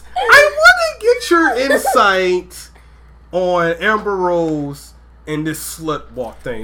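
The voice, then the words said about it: High-pitched put-on voice. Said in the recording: “let me hit the high voice.”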